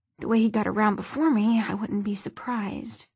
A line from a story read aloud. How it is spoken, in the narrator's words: he added, half under his breath